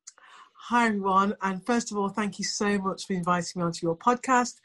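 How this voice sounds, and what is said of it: English accent. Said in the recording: “as you can probably tell from the accent, I am from England”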